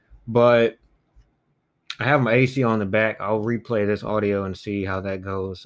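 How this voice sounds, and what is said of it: Subdued, low-spirited voice. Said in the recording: “as you may be able to tell by my voice, I'm just a little bit down right now”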